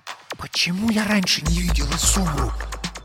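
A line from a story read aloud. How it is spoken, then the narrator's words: Loud whisper. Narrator (Russian): громким шепотом спросила София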